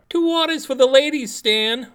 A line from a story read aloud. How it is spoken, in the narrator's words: Marty shouts